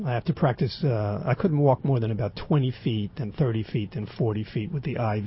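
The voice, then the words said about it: Raspy voice. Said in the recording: “my voice sounds so raspy”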